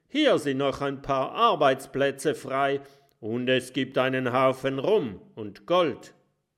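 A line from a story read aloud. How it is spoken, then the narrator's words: Calling out. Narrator (German): ruft Jim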